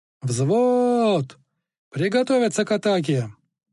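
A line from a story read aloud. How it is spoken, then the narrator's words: Rousing battle yell. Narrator (Russian): Он орал так, чтобы храбрые почувствовали за спиной крылья, а слабые собрались с духом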